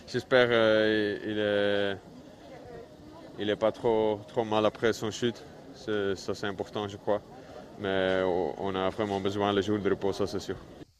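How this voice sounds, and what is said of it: Flemish-accented French. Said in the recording (French): “avec son accent flamand”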